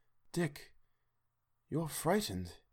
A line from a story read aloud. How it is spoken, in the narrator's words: said quietly